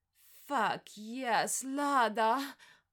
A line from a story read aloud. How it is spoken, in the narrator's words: groaned, my voice outdoing his moans of pleasure